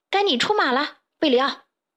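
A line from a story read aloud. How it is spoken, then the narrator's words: Urgent shout. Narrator (Chinese): 卡梅利多对贝里奥大喊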